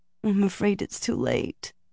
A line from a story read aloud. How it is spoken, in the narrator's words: Elaine said miserably